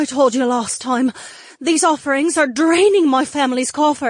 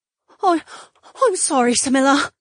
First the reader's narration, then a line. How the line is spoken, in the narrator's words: the woman whimpered, cowered